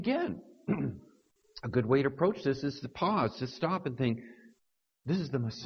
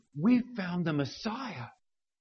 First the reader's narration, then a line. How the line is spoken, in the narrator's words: Andrew, he excitedly declared to Peter